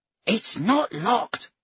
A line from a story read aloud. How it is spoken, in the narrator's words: she hissed at Senlin